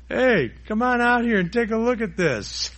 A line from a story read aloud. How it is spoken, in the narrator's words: he yells to the other guy